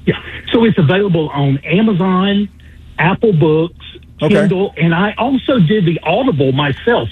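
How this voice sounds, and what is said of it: Southern Alabama accent. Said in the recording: “a Baldwin County, Alabama accent”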